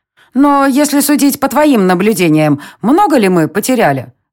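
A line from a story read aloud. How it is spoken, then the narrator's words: Plain. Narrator (Russian): спросила Нира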